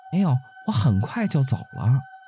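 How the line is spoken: Hurried. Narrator (Chinese): 陈月急忙说

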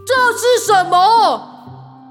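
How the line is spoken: Angry roar. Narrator (Chinese): 他一边抱怨，红宝石般的双眼就瞪得像是要喷出火来，转头大吼

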